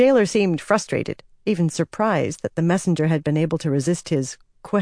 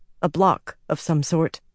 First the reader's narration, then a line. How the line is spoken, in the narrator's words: Nynaeve said